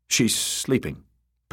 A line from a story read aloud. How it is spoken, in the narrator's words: Pate said curtly